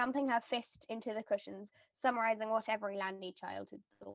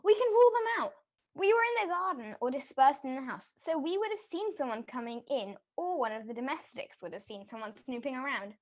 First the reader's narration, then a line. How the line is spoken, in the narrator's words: Kate exclaimed